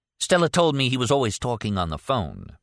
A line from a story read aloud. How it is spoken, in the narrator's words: Martin said